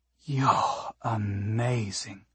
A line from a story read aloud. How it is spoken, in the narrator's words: Nasuno breathed out